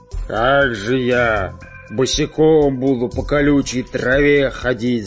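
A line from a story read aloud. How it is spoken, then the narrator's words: Grumbling. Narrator (Russian): заворчав, пират Буль-Буль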